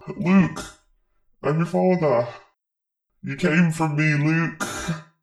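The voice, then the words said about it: Leeds accent, Darth Vader line. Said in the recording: “Darth Vader from Leeds.”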